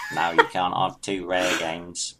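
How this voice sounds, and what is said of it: Poor imitation of another person's voice. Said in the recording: “with Michael Caine going ... worst impression yet”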